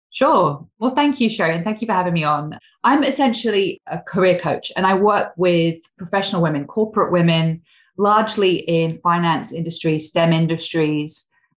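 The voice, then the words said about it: English accent. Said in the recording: “I'm actually English, but living in Australia... my accent's still not remotely Australian... I don't think I sound Australian quite yet”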